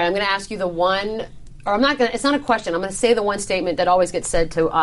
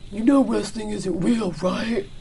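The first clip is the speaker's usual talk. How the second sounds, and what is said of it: Mocking stupid voice. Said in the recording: “stupid voice”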